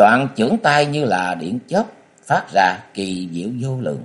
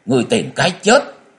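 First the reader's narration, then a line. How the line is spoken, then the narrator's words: Sudden awakened shout. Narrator (Vietnamese): Diệu thủ thư sinh như người tỉnh giấc mơ quát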